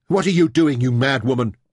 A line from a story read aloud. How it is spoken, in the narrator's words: shouted